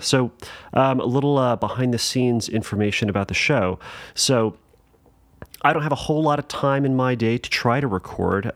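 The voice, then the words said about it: Tired-sounding voice. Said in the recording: “if anybody thinks that I sound tired or if I get a little loopy on this episode, it's going to be for good reason”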